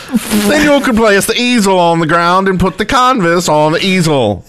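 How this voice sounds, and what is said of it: Mixed Boston, Scottish, Swedish put-on accent. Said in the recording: “a mixture of a Boston, a Scottish, and a Swedish accent? ... it's everything. It's a it's the new Minecraft accent.”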